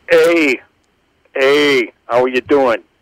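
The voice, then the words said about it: Put-on Boston accent. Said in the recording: “I don't know who the hell I'm trying to impersonate here ... Some guy from Boston.”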